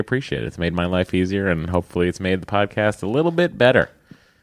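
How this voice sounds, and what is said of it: Boston accent. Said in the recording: “sorry about my Boston accent”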